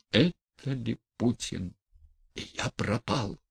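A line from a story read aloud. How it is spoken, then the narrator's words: Whispering. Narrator (Russian): прошептал он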